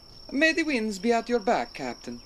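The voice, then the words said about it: Man with Italian accent. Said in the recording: “a man with an Italian accent”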